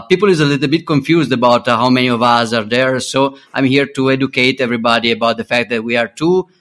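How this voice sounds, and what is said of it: British Mexican accent. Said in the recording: “As you can hear from my accent, I'm British Mexican.”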